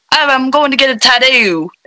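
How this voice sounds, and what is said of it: Put-on Australian accent. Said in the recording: “he's very Australian ... I can't help but try and copy his accent.”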